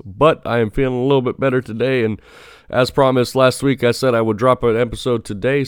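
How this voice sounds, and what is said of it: Voice sounding sick with a cold. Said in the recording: “I was fighting a terrible cold. I don't know if you can tell by my voice”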